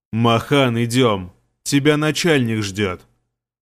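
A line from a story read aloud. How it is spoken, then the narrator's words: Deep bass, guard. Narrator (Russian): пробасил стражник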